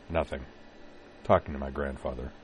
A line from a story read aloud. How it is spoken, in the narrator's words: Corwin mumbled